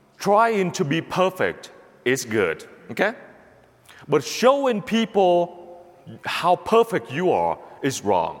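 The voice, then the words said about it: Speaks English with an accent. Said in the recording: “with my accent, with my grammar, I'm making mistakes every day in front of you”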